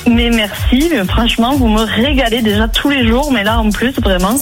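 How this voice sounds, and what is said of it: Toulouse French accent. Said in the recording (French): “l'accent toulousain”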